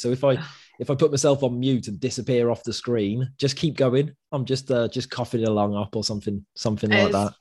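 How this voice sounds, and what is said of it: Congested voice from a cold. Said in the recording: “I'm absolutely full of cold. You can probably hear it in my voice.”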